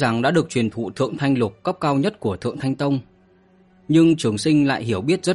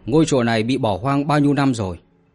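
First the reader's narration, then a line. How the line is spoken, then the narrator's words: Cold question. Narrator (Vietnamese): lạnh lùng mà hỏi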